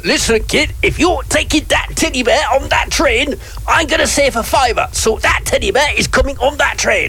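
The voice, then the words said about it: Put-on Yorkshire accent. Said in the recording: “It's supposed to be a Yorkshire accent.”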